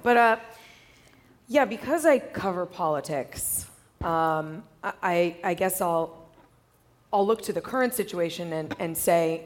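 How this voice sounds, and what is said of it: Strained, cracking, failing voice. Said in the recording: “my voice is going ... If it gets grating ... If it cracks, I'm not getting emotional.”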